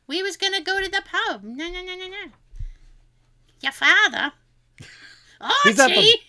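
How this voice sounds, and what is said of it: Put-on accent, dropped R's. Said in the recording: “teach me the accent ... call home. You'll hear it ... Don't pronounce your R's”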